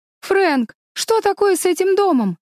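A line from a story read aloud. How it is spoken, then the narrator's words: Shouting. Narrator (Russian): закричала Мэриголд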